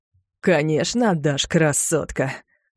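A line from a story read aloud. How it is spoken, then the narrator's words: Man's mocking laugh. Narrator (Russian): издевательски хохотнул мужчина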